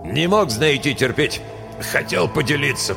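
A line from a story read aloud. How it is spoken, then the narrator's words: Hoarse wheeze. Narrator (Russian): прохрипел Брумс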